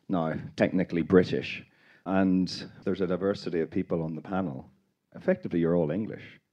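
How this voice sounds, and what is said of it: Northern Irish accent. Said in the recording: “You might tell from my accent, I am Northern Irish.”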